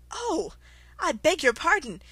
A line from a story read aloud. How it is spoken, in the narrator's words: she exclaimed in a tone of great dismay